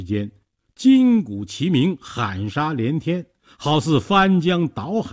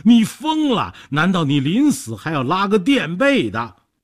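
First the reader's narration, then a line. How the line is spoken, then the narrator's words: Trembling. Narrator (Chinese): 说着 抖成一团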